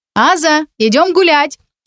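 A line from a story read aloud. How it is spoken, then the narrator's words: Shouted. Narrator (Russian): крикнула она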